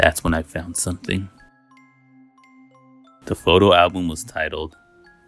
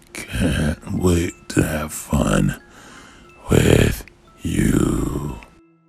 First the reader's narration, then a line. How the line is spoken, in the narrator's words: said in a scratchy voice